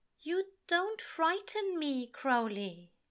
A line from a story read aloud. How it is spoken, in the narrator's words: he says softly